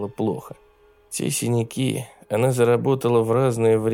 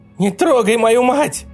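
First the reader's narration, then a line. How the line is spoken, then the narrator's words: Girl yelling. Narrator (Russian): орала девочка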